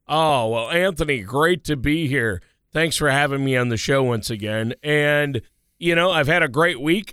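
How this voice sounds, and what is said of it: Hoarse voice from a cold. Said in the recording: “I've got a little bit of a cold, a hoarse voice. I guess too much yelling at the football games”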